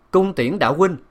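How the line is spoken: Loud restrained anger. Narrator (Vietnamese): lão rất biết kìm nén tức giận, cao giọng nói

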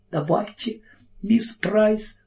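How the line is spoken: Breathless exhale. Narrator (Russian): выдохнула Кэрри

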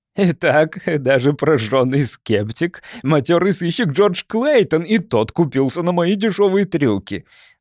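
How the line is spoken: Speaking through laughter. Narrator (Russian): сквозь смех сумел проговорить Леттроп

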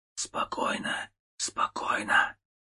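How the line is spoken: Whispering. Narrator (Russian): шептал

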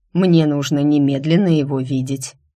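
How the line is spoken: Cold, formal. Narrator (Russian): так же холодно и официально сказал Дайм

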